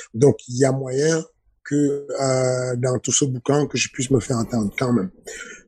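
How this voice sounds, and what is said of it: Very thick regional accent, strong intonation. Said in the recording (French): “J'ai un accent à couper au couteau, j'ai une intonation assez forte.”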